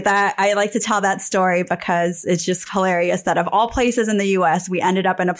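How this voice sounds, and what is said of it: Slight South Jersey/Philadelphia accent. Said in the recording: “I love your accent actually because it it's I've got family in South Jersey and if you'd asked me where did I think you were from I would have said South Jersey because I I hear it just a little bit but it's right there on the border between sort of Philadelphia and and southeast Pennsylvania”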